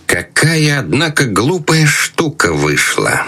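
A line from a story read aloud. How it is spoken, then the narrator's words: Displeased, through clenched teeth. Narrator (Russian): Крестный процедил сквозь зубы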